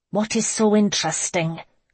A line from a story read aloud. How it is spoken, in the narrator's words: She asked through clenched teeth